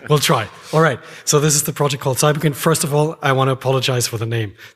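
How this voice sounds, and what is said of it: Worn-out, strained voice. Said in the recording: “you can hear from my voice that I've been talking way too much”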